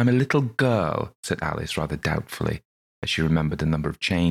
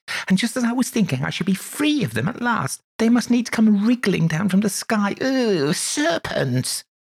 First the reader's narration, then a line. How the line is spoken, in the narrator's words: continued the pigeon, raising its voice to a shriek